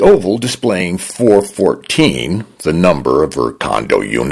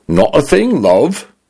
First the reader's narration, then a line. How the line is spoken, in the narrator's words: said in a male British voice that leaned toward a Cockney accent